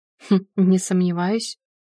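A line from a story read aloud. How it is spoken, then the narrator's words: Skeptical snort. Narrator (Russian): хмыкнул Максим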